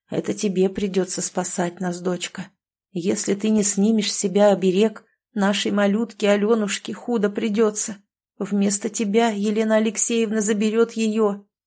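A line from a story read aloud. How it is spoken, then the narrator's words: Sad, father. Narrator (Russian): грустно проговорил отец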